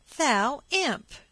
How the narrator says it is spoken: she cried

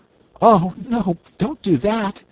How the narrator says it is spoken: pleaded Cake

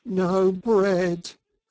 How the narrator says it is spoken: groaned the Mole dolorously

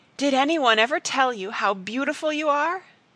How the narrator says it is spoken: she cried

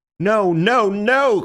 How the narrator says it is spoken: cried Syme in a kind of frenzy

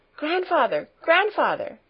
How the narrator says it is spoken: she cried, beside herself with excitement

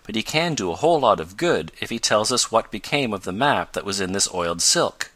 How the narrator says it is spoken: went on Tom, in a reassuring tone

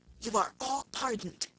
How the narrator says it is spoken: the King say in a low voice to the company generally

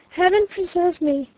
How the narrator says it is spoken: gasped Stanton

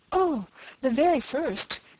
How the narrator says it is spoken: exclaimed the eager girl

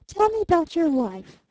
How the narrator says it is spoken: said the youngish girl a little wistfully

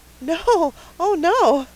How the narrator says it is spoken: cried Anne, flushing so guiltily

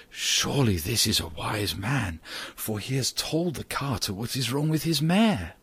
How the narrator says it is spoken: the people who heard him whispered together and said

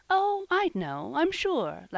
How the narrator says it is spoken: laughed Polly

